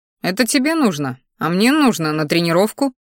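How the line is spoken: Dismissive snort. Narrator (Russian): хмыкнул в ответ, не желая потакать ее капризом

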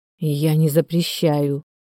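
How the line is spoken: Mutter. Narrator (Russian): пробормотал Тихон

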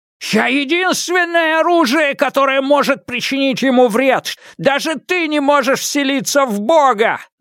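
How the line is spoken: Yelling. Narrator (Russian): заорал меч

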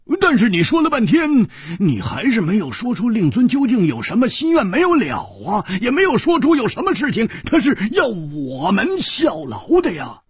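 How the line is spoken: Sudden loud voice. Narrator (Chinese): 胡铁花忽然大声地说

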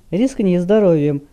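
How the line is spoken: Gloomy commander warning. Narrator (Russian): мрачно предупредил командир

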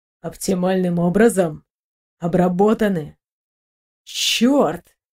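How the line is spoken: Muttering. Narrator (Russian): пробормотал капитан

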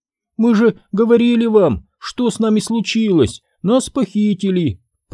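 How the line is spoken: Moaning. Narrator (Russian): простонала Дафна

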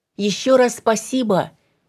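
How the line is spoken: Shouted after someone. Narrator (Russian): крикнула Даша ему в спину

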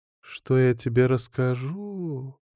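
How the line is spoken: Drawl. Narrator (Russian): протянула она

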